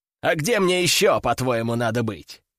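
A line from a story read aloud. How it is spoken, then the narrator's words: Chuckling. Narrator (Russian): хохотнул Сергей Тимофеевич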